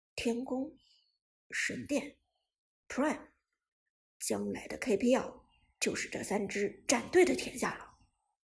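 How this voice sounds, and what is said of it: Quiet, low murmuring voice. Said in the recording (Chinese): “苏哲低声重复着伍兹的话，小声说道”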